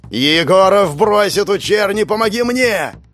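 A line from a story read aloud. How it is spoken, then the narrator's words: Yelling. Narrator (Russian): заорал Павел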